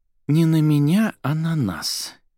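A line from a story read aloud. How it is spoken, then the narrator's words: Girl's heavy sigh. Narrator (Russian): тяжело вздохнула девушка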